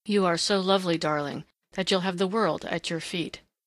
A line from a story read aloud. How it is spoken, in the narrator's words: said the young man huskily